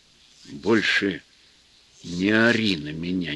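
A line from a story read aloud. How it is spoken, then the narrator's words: Quiet. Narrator (Russian): негромко сказал Федор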